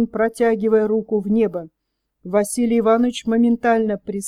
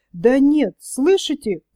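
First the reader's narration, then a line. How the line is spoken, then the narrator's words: Agitated. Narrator (Russian): взволнованно выговорил Бубырь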